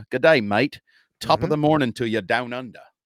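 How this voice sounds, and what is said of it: Mixed put-on Irish, Australian, English accents. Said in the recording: “That was Irish and Australian... And kind of English... accent train wreck”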